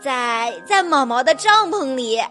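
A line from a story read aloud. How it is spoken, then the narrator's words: Cheerful, grinning reply. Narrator (Chinese): 路马笑嘻嘻的回答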